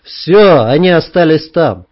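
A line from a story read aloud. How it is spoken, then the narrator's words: Loud after noisy exhale. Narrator (Russian): Саня шумно перевел дух и сказал достаточно громко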